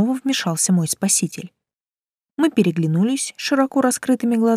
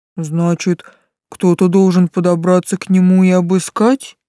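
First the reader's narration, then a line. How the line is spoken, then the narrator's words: Low booming voice. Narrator (Russian): прогудел Тесл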